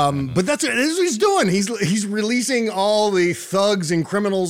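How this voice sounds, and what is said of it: Usual voice. Nothing is said of it.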